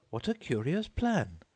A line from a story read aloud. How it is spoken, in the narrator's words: exclaimed Alice